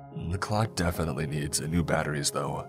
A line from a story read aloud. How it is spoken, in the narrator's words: he added in a whisper